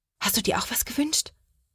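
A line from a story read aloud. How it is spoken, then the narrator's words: Whisper. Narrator (German): flüstert Sophia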